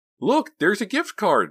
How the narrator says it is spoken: Mindy exclaimed

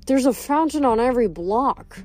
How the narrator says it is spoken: Leo grumbled

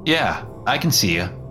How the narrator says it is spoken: I replied curtly

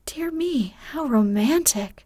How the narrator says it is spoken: exclaimed Meg

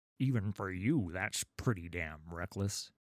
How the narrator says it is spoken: grunted Raffin, sweating as he leaned back and forth on the oars

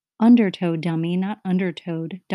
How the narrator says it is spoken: Duncan had howled

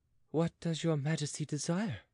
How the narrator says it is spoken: asked she in a sweet voice

